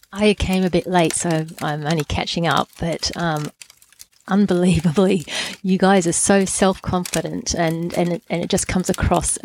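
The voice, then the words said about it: Australian accent. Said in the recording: “Can tell I've got an Australian accent.”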